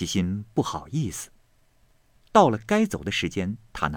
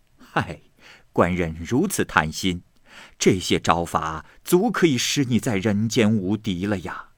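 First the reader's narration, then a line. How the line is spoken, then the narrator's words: Old woman, laughing. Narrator (Chinese): 这老妈妈就笑着说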